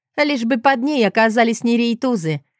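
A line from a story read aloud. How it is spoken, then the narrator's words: Laughing. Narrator (Russian): рассмеялась Ирина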